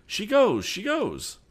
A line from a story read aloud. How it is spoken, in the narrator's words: cried